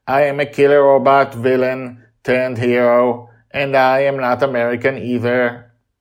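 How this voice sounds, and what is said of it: Robotic character voice. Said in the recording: “in his robotic voice”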